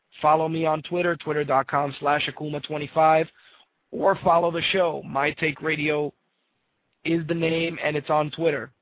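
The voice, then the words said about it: Strained, fading voice. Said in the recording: “my voice is out of here ... Every fucking week my voice is, like, disappearing.”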